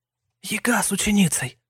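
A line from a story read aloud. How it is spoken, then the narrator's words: Respectful whisper. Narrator (Russian): Уважительно шепнула Ирина Павловна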